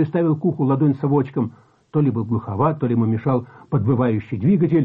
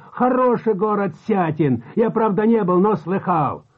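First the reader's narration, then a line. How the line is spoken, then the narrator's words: Shouting. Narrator (Russian): Он опять закричал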